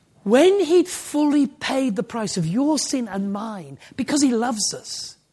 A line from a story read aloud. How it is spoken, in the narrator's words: he cried out, finished